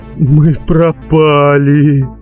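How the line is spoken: Groaning. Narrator (Russian): простонал Матеус

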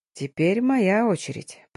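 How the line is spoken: Hoarse rasp. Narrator (Russian): прохрипел и уточнил

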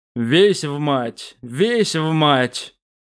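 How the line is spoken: Grumbling. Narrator (Russian): проворчал Инарий

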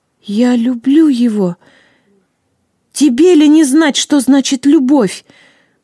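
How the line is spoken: Exclaiming. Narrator (Russian): воскликнула Вега

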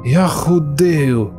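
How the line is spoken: Near outcry. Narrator (Russian): Чуть было не вскрикнул Ираклий

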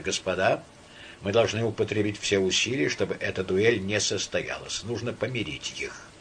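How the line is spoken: Quiet. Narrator (Russian): Шишковский сказал тихо

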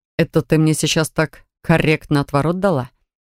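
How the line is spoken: Short laugh. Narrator (Russian): хохотнул чародей

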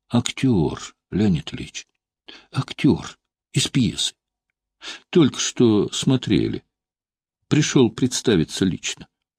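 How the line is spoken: Soothing whisper. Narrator (Russian): генерал успокаивающе шепнул

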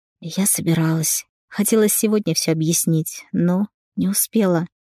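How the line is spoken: Quiet reply. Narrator (Russian): тихо ответила Рената

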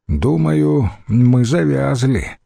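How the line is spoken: Sad sigh. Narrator (Russian): вздохнул опечаленно Фабий

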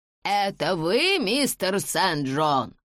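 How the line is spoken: Shouting. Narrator (Russian): крикнула Ханна

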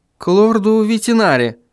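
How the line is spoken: Uncertain. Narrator (Russian): неуверенно произнес Вильям

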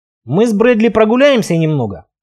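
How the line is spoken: Grumbled with full mouth. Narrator (Russian): пробурчал я с набитым ртом

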